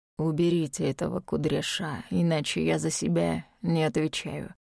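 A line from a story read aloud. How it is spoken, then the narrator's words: Very gloomy reply. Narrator (Russian): Очень мрачно отозвался Дарк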